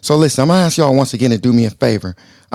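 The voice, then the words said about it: Hoarse, partly lost voice. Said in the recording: “if you can hear it in my voice, I kind of lost my voice a little bit”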